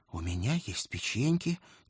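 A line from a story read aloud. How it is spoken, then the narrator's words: Quiet whisper in ear. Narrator (Russian): тихо прошептал мне на ухо мой деятельный паж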